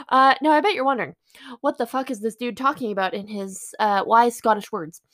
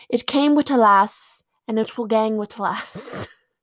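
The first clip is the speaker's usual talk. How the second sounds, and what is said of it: Poor put-on Scottish accent. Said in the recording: “my best Scottish impression. ... I'm sorry, that was awful.”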